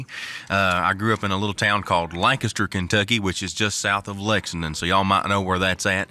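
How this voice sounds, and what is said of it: Strong Kentucky accent. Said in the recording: “I've got quite the strong accent, and that's because I'm from the great state of Kentucky”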